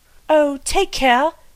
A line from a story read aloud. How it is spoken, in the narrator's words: cried Anthea, in an agony of apprehension